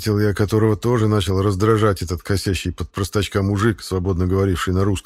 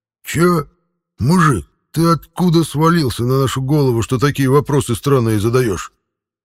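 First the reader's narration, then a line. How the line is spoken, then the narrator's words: Snarling through teeth. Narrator (Russian): Мгновенно вызверившись сквозь зубы, спросил Петр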